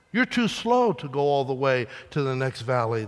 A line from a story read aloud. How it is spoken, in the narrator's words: they said